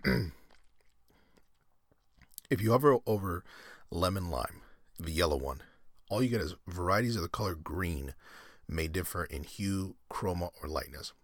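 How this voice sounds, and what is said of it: Strained, hoarse voice. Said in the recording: “I'm like losing my voice as a result of it being so heated”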